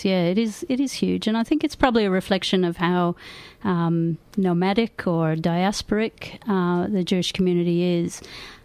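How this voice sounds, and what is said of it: Foreign, non-local accent. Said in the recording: “as you can hear from my accent, ... I'm also from overseas”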